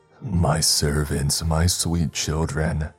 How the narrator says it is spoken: she said in a deep and cooing voice

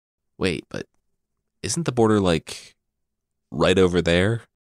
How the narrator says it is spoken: someone asked

